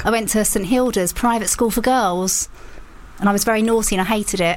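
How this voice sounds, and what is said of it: Essex English accent. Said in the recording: “Can you tell the Essex accent? ... As soon as you mentioned it, I went, yeah, that makes a lot of sense.”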